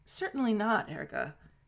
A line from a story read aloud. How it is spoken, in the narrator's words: Jin Guanyao said